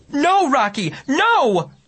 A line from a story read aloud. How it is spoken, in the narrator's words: Mom screamed